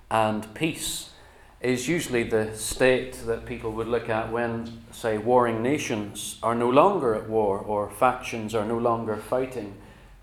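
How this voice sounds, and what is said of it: Northern Irish accent. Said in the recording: “You can tell by my accent, I grew up in an area of the United Kingdom ... just after I moved across to England from Northern Ireland”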